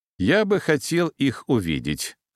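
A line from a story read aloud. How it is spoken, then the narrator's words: Calm but demanding. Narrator (Russian): спокойно, но с требовательной ноткой в голосе произнес подполковник Сизов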